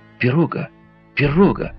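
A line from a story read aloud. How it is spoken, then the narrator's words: Sudden exclamation. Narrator (Russian): Вдруг воскликнул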